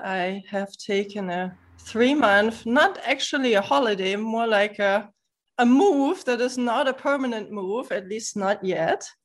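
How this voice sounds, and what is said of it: German accent. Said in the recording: “that lovely accent ... the accent is German”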